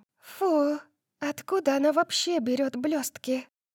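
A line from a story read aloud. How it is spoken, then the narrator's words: Whispered. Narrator (Russian): прошептала София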